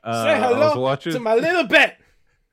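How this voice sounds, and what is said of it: Yelled gangster-film impression. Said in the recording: “yelling like Pacino”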